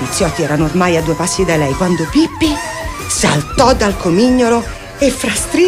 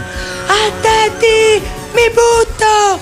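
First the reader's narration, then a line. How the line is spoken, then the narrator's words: Shrieking. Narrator (Italian): strillò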